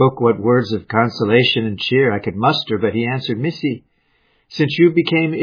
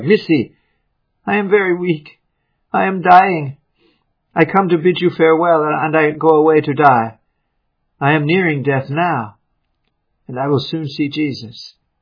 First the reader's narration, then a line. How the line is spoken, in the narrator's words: Kawea came again to me, and rousing me out of sleep, cried